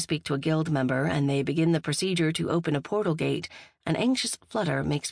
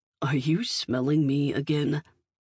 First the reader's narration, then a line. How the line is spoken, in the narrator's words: I groan